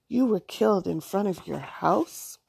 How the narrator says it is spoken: Allison asked sadly

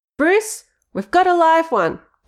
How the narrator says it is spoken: Betty shouted

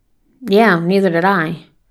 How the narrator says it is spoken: mutters Daniel

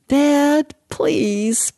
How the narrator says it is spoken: Bobby whined

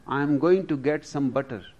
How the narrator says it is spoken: replied Pablo

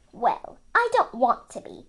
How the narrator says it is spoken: she snapped

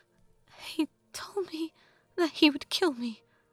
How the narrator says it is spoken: Anju said in a broken voice

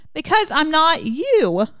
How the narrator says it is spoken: I shout

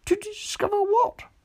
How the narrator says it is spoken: said Piglet anxiously

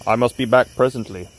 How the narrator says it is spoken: said Smith

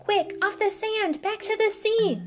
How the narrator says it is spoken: cried the snail

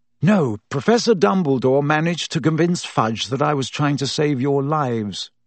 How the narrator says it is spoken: he sighed

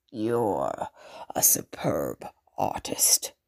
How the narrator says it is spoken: the Baron growled

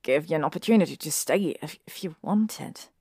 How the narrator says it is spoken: he said quietly

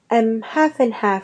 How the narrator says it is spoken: said Seamus

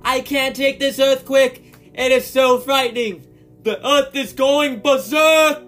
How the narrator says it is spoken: I shouted

